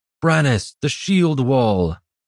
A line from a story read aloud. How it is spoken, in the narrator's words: Iridan called out